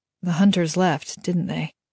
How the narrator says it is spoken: Kaz asked quietly

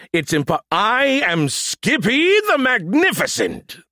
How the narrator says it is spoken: the voice roared

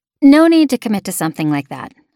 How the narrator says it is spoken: I said quickly

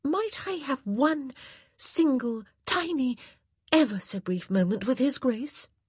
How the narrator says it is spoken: she asked, half the words mere hisses

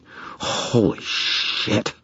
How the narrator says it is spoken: I breathed

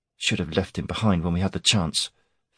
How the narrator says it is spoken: Fenn muttered as she walked away

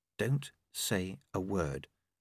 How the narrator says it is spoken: she said quietly

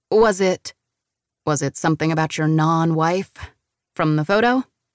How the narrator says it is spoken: He chuckles

